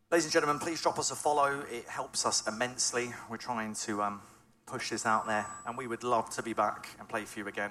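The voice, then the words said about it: Norfolk English accent. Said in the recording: “As you can tell from my accent, I'm not from around this way. I'm from way down south. ... I've come from Norfolk, Norwich.”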